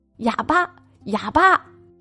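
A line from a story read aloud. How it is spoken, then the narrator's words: Children taunting from afar. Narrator (Chinese): 有些小孩淘气，他们看到母亲就远远的喊着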